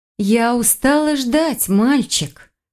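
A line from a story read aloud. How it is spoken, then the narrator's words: Threatening drawl. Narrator (Russian): Угрожающе протянула Файона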